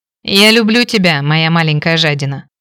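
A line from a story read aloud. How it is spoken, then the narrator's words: Happy laughing husband. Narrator (Russian): счастливо рассмеялся муж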